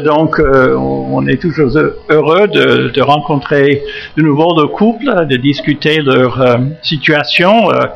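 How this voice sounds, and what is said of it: American accent speaking French. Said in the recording (French): “Bon, j'ai un accent, c'est vrai, et puis vous avez peut-être détecté l'origine de cet accent. Ça vient d'outre-Atlantique. ... je suis de la côte Est, le Massachusetts”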